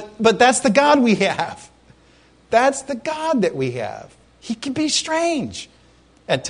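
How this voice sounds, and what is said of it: Usual voice. Nothing is said of it.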